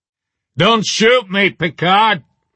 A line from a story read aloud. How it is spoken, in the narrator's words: I yelled